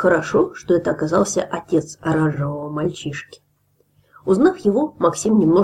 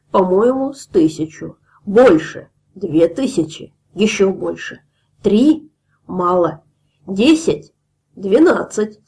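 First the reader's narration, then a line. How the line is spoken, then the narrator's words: Plain. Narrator (Russian): сказал пузырь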